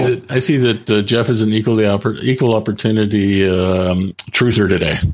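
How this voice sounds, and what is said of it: Usual voice. Nothing is said of it.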